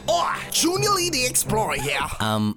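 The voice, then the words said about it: Put-on accent, not convincing. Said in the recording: “That accent is sounding good at all.”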